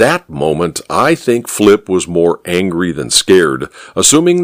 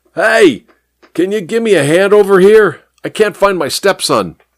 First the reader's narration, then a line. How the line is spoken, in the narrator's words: He yelled at the traffic cop